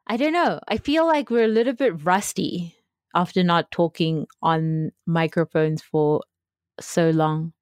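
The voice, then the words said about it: South African accent. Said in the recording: “my beautiful South African accent”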